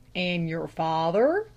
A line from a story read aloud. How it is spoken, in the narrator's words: drawled the lay reader